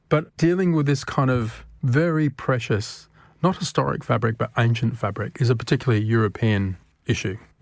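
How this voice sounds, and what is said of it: Australian accent. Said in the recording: “you can tell by the accent, I'm Australian”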